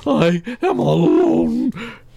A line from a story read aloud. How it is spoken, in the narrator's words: screamed Toad